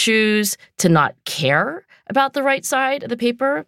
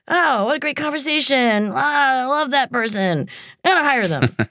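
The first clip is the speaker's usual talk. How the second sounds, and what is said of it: Impression of a gushing CEO. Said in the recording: “Your CEO impression is my favorite. ... Yeah, that was my CEO impression.”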